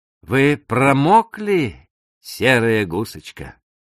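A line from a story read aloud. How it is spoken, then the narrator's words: Cheerful question after deep breath. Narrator (Russian): Кент глубоко вздохнул, перевел дух и весело спросил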